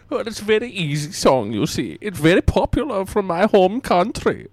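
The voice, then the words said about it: Thick put-on foreign accent. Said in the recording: “it's probably my accent... it's very thick... Hence my weird accent”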